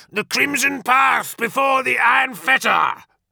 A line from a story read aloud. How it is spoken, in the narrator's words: bellowed Tagore, lifting his arms to meet death head-on